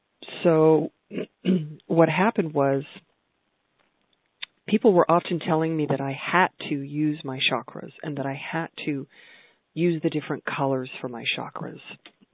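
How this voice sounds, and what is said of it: Slightly congested voice, throat clearing. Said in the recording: “I'm clearing my throat. I have a little bit of a tickle because I have a bit of a cold”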